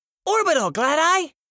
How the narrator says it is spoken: Rain squealed

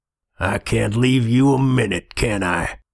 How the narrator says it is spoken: The rasping basso voice behind them was audibly amused

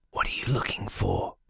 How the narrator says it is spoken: spoke in a low, harsh whisper

